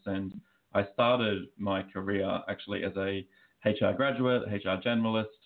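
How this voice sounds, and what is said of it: Australian accent. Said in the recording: “as you can probably tell by my accent, I am Australian”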